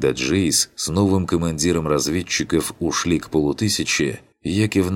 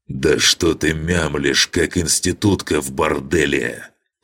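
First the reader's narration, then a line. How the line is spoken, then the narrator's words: Roaring. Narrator (Russian): Проревел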